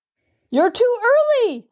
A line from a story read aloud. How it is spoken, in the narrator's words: Herschel shrieked